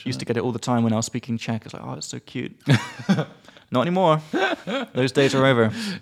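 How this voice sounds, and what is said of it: British accent. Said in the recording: “Usually people say, oh, I love your British accent.”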